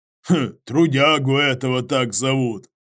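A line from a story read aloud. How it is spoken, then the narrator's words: Wry grunt. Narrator (Russian): хмыкнул Иваныч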